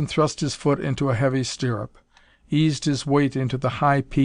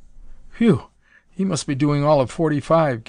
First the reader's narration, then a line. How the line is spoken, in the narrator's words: gasped Nelson